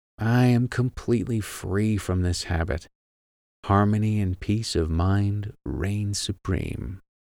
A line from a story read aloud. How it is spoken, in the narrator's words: say quietly, over and over again, as a lullaby